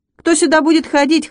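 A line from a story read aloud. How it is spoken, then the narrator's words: Scoffing snort. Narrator (Russian): хмыкнул Вячик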